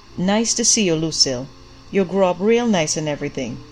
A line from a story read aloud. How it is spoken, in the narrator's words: he said